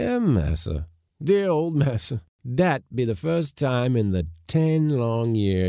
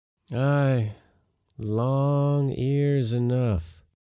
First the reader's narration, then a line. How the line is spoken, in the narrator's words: sighed my uncle